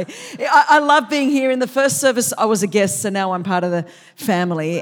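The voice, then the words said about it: Australian accent. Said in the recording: “a more refined accent. This is how the Queen wishes she could speak English ... I'm still like one of the colonies down there in Australia”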